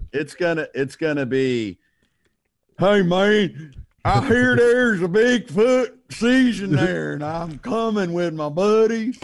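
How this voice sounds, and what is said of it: Exaggerated drawled regional accent. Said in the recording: “drag out your accent a little”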